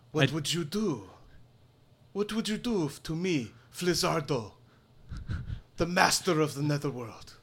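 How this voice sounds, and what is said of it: Yelled character voice, shifting accent. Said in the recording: “Sounds like your accent changed.”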